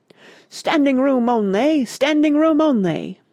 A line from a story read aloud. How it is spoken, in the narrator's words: a doorman in gold braid was bellowing haughtily